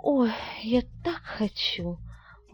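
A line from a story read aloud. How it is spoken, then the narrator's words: Excited girlish purr. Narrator (Russian): возбужденно промурлыкала девушка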